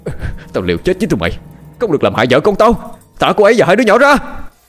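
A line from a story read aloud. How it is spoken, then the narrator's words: Nonstop desperate shouting. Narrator (Vietnamese): Miệng anh không ngừng la hét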